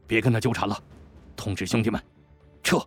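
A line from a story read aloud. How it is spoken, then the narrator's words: Low stern command. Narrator (Chinese): 李安言低声喝住了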